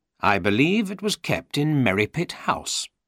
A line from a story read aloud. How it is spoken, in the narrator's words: said Holmes